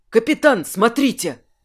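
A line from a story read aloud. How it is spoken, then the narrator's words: Exclamation. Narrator (Russian): воскликнул помощник Жерара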